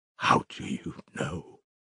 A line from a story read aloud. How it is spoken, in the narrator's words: whispered, hardly able to breathe